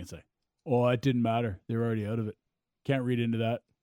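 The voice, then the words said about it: Half-hearted imitation of another person's voice. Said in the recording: “your Rhett impression ... If you're going to do a Rhett impression, put some heart and effort into it, please.”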